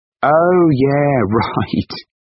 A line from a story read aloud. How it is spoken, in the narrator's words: Andrew laughed